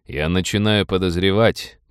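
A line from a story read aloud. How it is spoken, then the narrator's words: Gloomy. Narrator (Russian): мрачно сказал Роджер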